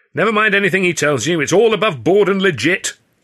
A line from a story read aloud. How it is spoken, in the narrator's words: Hurley called out